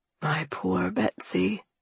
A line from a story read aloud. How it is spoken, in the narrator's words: Alexander whispered beneath the blankets, trembling